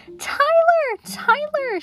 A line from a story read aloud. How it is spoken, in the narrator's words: exclaimed